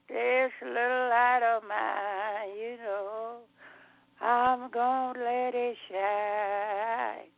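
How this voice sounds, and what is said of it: Hoarse elderly woman's voice. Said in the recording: “I'm doing a little hoarse. You hear that.”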